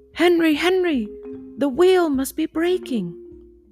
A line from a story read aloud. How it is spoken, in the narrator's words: cried